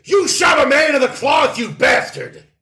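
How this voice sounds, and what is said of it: Shouting angrily. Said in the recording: “I'm shouting”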